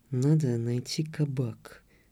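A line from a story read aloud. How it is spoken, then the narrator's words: Whispered. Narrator (Russian): прошептал Толик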